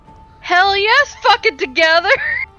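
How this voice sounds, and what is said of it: Angry, raging shouted voice. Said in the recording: “I'm saying that in my ragey voice.”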